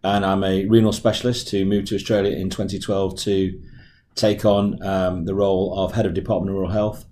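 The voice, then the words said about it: English accent. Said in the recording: “I'm actually English, as my accent will give me away”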